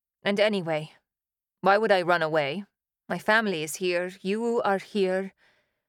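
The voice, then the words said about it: Flat, emotionless voice. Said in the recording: “My voice was flat, emotionless.”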